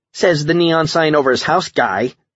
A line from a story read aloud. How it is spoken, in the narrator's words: Cindy snapped back